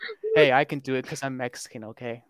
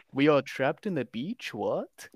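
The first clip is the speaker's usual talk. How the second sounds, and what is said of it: Imitates another person's voice. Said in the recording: “good Gael Garcia Bernal impression”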